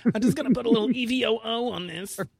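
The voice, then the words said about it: Bad impression, raspy smoker's voice. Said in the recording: “my Rachael Ray impression, which is pretty bad. ... who's been smoking for seven years. ... She sounds like she's got something going on there”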